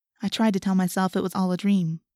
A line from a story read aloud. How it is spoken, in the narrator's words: Rachel said